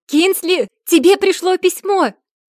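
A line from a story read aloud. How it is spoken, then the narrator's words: Loud shriek into speaker. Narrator (Russian): Завизжала она в динамик так громко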